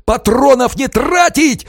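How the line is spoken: Shouting. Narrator (Russian): орал Романов

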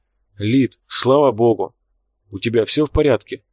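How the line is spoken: Breathed out. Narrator (Russian): выдохнул Фрод

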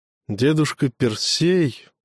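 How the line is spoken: Boy's furtive sigh. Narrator (Russian): украдкой вздохнул мальчик

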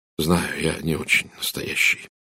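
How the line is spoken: Quiet. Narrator (Russian): тихо сказал Эдвард

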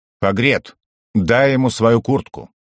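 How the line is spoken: Yapping. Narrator (Russian): Багард протявкал

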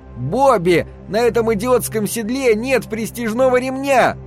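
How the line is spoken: Shouting. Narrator (Russian): кричал я

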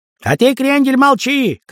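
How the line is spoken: Shout. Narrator (Russian): крикнул Райк Паукова

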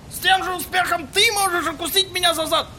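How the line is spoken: Shout. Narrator (Russian): крикнул ему таксист

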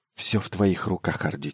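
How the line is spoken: Quiet. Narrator (Russian): тихо произнес Майлз

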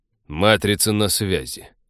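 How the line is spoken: Dry announcement. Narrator (Russian): сухо объявил человек

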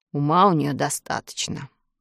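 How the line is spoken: Sailor's grumble. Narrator (Russian): проворчал моряк

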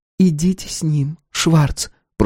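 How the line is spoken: Whisper. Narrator (Russian): прошептала Пула

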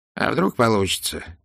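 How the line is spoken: Quiet, hesitant. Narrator (Russian): тихо произнес он наконец

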